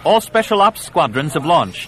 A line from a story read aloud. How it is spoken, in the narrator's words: Yella called out above the clamor of the command chamber